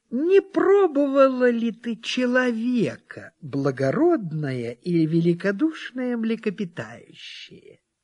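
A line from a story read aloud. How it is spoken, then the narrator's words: Small sly voice. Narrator (Russian): маленькая хитрая рыбка сказала ему маленьким хитреньким голосом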